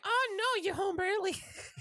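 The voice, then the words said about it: Old grandmother voice impression. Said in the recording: “You do a great Drew impression. ... so you turn into like an 86-year-old Jewish grandma.”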